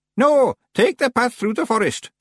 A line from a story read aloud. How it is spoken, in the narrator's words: shouted Miss Treason